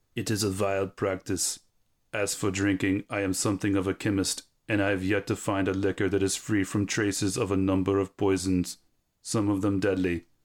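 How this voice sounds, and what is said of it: German accent imitating another person. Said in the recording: “Shall I read this in a German accent? ... Should I go for a Goldfinger accent? ... Like Werner Herzog? Could you do that? ... Oh yeah, I can do Werner Herzog.”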